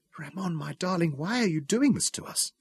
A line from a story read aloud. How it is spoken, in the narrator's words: whispered